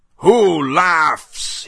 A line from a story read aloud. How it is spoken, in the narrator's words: he roared